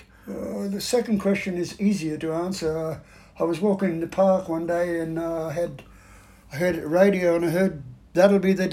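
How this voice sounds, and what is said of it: Australian accent. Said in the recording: “you haven't lost your accent. You still have the Aussie accent”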